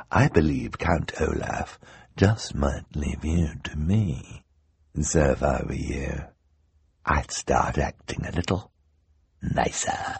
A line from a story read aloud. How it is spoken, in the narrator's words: the hook-handed man said smoothly